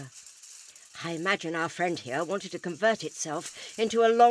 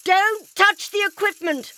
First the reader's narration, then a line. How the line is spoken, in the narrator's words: the doctor yelled